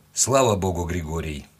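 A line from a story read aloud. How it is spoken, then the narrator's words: Calm. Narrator (Russian): ответил он спокойно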